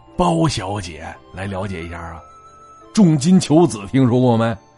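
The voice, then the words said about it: Quiet, hushed aside. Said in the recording (Chinese): “这得小声跟你说”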